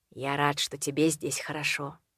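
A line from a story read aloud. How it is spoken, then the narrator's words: Quiet. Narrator (Russian): тихо сказал Роудс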